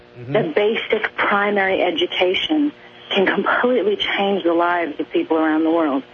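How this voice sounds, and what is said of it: Speaking with a seemingly affected accent. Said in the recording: “Has she picked up a fake accent? ... She sounds like she's developed some accent, though.”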